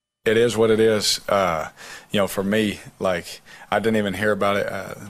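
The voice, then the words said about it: Slight Southern accent. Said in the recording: “a little bit of a Southern accent”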